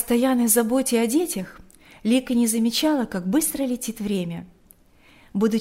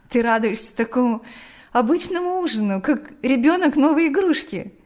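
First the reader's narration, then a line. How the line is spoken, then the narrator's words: Laughing. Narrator (Russian): смеялась Лика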